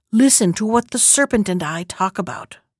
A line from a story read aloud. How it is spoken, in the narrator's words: The girl ... whispered